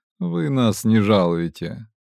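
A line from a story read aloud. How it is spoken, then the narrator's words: Snort. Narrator (Russian): хмыкнул Фальк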